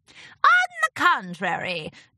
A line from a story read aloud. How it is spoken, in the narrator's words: Discord cackled